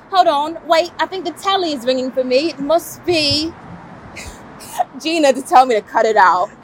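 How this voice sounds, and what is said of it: Put-on British accent. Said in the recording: “I got to use my British accent.”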